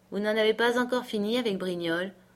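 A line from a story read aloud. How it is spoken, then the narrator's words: Sad question. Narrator (French): me demanda tristement M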